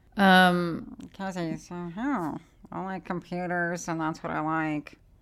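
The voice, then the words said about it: Poor imitation of another person's voice. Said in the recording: “who is this terrible impression of?”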